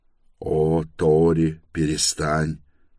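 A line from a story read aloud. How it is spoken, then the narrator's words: Angry mocking mimicry. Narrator (Russian): Сердито передразнил ее Торрен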